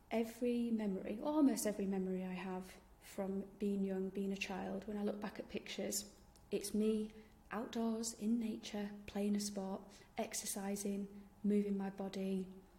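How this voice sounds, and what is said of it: Yorkshire English accent. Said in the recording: “I'm from Yorkshire, in case you didn't realise from my accent.”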